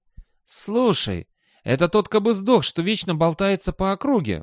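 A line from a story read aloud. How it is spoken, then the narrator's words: Exclamation. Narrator (Russian): воскликнул человек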